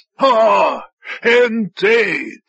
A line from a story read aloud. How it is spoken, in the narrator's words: Lelias chuckled, wheezing